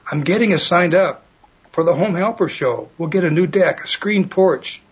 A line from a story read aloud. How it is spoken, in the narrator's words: he yelled to his wife